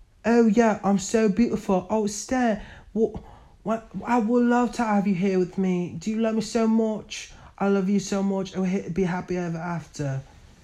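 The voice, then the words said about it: Put-on accent for a character. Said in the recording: “That was not the accent that she was talking in, but that was the only accent that I could do.”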